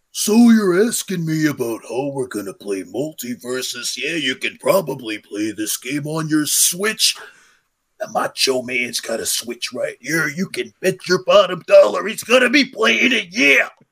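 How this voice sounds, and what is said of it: Good, strained imitation of another's voice. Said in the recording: “Do your Macho Man. has a really good impression of ... it rips his vocal cords apart”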